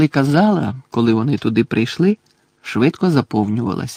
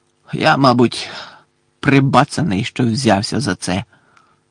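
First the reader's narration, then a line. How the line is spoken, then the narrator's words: Hoarse whisper. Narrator (Ukrainian): хрипко прошепотів він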